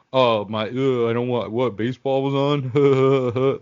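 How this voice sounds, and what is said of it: Imitates another person's voice. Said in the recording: “That's my impression of you not caring about sports.”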